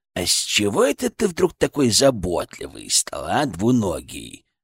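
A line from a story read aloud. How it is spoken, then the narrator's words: Creaky voice. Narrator (Russian): проскрипел он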